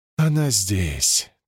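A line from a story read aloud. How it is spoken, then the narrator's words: Quiet. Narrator (Russian): тихо сказала Рабаниэль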